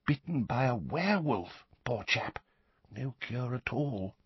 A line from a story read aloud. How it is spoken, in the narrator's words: he said, dropping his voice